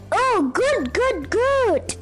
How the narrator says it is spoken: he cried

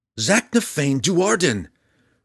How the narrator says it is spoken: Drizzt yelled back

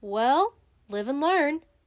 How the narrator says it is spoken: said Mr

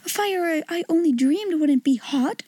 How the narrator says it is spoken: she cried

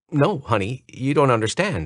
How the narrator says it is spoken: said

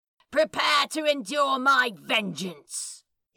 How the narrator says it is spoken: He shouted down

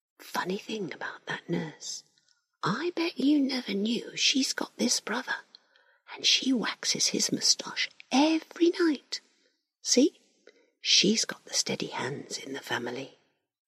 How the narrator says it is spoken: Larry whispers

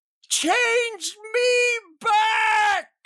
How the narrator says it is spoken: I screamed, choking on whatever crap filled these lungs

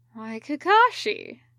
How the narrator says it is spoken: he murmured

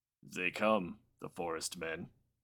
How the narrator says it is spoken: he grunted

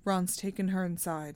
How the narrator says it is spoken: said Bill

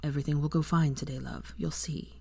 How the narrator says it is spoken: Draco murmured

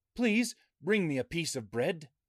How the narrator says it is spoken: he called out to her

